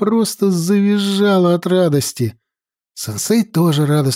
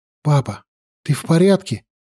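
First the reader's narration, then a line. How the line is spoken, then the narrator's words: Frightened question. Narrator (Russian): испуганно спросила я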